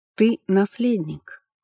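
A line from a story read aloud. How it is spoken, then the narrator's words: Calm objection. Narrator (Russian): все так же спокойно возразила Амахисат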